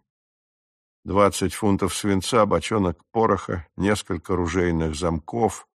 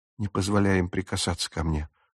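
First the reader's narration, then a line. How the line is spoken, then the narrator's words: Whisper. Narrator (Russian): шепнула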